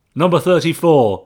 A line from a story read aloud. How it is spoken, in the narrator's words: he barked